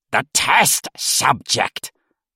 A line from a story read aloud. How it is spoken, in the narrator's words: the old man snapped at the technician